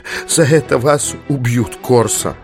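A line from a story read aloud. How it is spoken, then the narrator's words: Muttering. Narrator (Russian): ее бормотание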